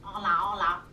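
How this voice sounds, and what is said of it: Nasal duck-like character voice. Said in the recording (Spanish): “Si hablas tapándote la nariz, eres un pato.”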